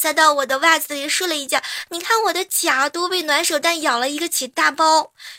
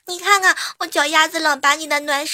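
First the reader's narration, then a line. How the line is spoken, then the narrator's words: Crying. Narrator (Chinese): 小童的侄子哭着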